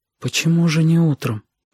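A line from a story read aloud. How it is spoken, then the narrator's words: Whispered question. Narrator (Russian): шепотом спросила Сашка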